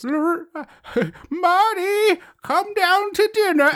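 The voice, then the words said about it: Cartoonish old lady voice. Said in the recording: “That is a cartoon voice. You are doing a cartoon old lady voice.”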